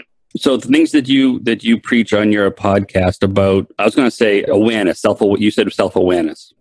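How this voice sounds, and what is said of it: Boston accent. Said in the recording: “In this Boston accent?”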